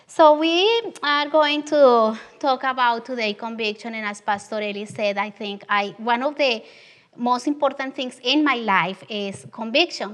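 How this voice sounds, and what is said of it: Strong Latin American accent in English. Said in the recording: “I have this strong Southern accent that is southern of the border... when I read, my accent is even stronger”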